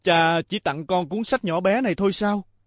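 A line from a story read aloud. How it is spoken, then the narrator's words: Angry, raised voice. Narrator (Vietnamese): Quá thất vọng và không kìm được cơn giận, anh cao giọng nói với cha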